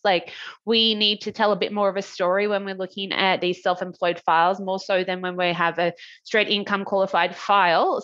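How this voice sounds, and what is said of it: Australian accent. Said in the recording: “where's your accent from? ... I'm from Australia.”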